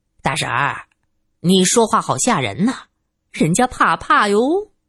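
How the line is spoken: Laughing. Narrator (Chinese): 玉伟笑着

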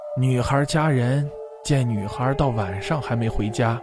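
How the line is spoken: Sighing old man. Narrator (Chinese): 老伯再叹一口气，又说

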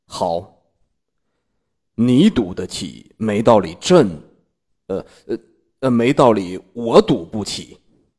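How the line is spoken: Deep, grave voice. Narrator (Chinese): 许久才沉声道

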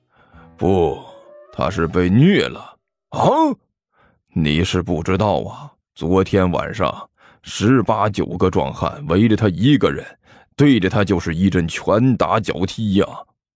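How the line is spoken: Grieved and indignant. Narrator (Chinese): 尼采一脸悲愤的说道

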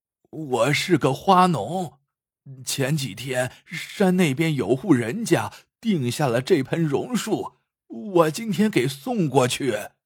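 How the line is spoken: Trembling old man's voice. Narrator (Chinese): 老头颤声道

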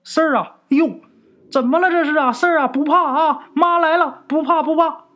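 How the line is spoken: Mother shouting from indoors. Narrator (Chinese): 他妈在屋里喊啊

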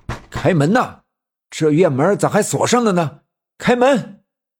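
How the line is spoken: Shouting. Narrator (Chinese): 有人冲着院子喊叫

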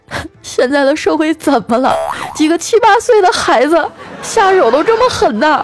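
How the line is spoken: Crying. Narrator (Chinese): 我老婆在我病床病床前哭着说

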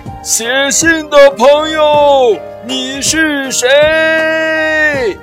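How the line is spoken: Booming shout. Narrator (Chinese): 用自己的大嗓门喊道

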